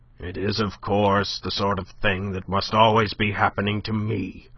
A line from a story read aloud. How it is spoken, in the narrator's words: he grumbled to no one in particular